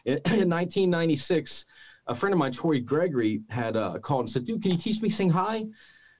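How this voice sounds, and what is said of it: Voice giving out, strained. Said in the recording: “my voice is going out from my damage. It'll come back here in a minute.”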